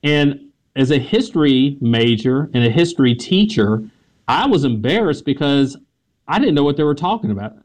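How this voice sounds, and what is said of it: American Southern accent. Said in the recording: “heard my Southern accent.”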